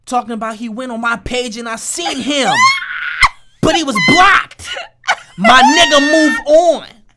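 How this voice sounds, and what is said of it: Imitates another person's voice. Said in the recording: “You think that's what she sound like? ... I don't know if that's the proper accent, but I'm trying.”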